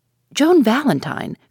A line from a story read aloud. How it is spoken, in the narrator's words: cried Judson